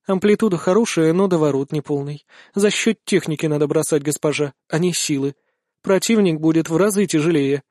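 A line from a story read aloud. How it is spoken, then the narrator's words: Calm. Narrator (Russian): отвечает Каталютка спокойным тоном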